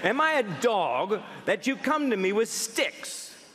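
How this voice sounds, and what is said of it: Put-on English accent. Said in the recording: “Apparently the Philistine had an English accent.”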